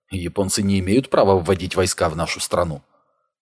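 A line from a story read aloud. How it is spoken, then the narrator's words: Said in undertone. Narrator (Russian): он вполголоса сказал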